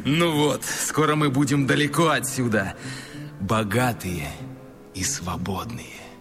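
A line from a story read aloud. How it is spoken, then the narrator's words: Loud laughing. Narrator (Russian): чел захохотал и сказал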